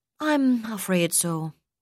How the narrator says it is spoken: sighed

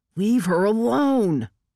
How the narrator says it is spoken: Oil Can shouted

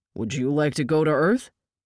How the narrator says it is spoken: Tinker laughed

